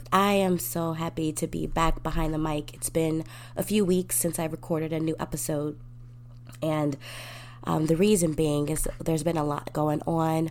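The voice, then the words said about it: Voice slightly off, allergy-affected. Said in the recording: “excuse my voice today. It's a little different. My allergies have been giving me a little fun time recently”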